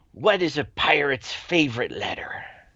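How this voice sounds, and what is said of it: Pirate character voice. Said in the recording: “in my best pirate voice”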